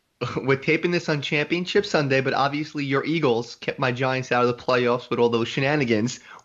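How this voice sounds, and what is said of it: New York accent. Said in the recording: “Love the New York accent.”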